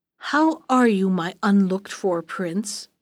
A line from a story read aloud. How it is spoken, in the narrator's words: he asked